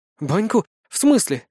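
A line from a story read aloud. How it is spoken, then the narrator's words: Bewildered, from behind. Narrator (Russian): растерянно произнесла леди Вышнегорская за моей спиной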